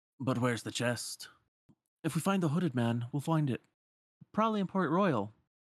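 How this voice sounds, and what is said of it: Piratey accent slipping into Sora voice. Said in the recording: “I'm like falling into a piratey accent trying to do Sora.”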